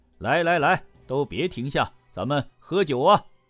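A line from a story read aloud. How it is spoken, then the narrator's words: Loud boisterous shouting. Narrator (Chinese): 他大呼小叫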